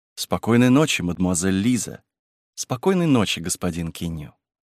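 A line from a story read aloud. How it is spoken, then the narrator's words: Affectionate. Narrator (Russian): ласково сказав друг другу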